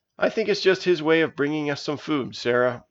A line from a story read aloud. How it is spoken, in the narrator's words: said Elisa